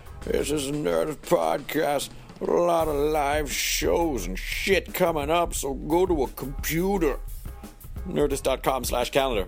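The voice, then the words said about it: Crusty, scratchy put-on character voice. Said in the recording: “My voice is a little scratchy at the end of a long day of recording a lot of podcasts and talking loudly ... I like to do this voice a little bit because it sounds really crusty ... I'm done with this character”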